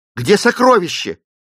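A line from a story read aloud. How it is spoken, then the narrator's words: Distant shout. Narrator (Russian): крикнул он Клейтону еще с расстояния 100 шагов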